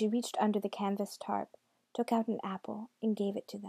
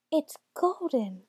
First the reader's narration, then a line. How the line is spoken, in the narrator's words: the children cried